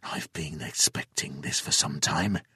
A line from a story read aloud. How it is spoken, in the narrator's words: he whispered